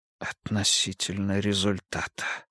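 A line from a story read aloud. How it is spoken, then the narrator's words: Whisper. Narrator (Russian): прошептал Ницше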